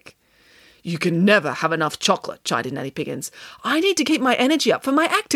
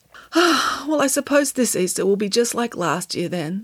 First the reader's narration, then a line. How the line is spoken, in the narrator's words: sighed Samantha